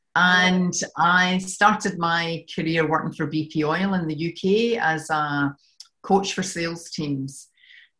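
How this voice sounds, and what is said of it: Scottish accent. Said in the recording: “you can tell from my accent that I'm from Scotland ... I can't seem to shift this accent.”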